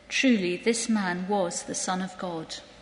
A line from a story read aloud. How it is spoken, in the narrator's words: the centurion who stood facing him saw that in this way he breathed his last, he said